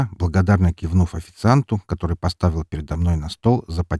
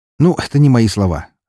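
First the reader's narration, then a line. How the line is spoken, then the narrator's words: Smirking, over phone. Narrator (Russian): хмыкнул в трубку журналист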